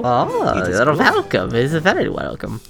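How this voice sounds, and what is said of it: Put-on Transylvanian accent. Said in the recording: “The accent is this that you are doing? The Transylvanian?”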